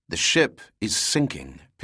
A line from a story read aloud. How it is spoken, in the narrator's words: Pitt said calmly